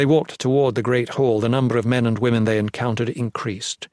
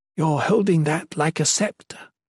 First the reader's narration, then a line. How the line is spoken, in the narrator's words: Mina whispered